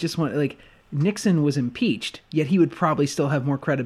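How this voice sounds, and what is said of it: Usual voice. Nothing is said of it.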